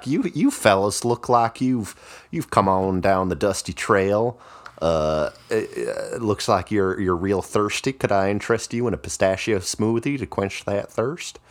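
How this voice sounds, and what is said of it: Old-timey southern twang. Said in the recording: “classic old-timey southern twang, speaking pistachio farmer”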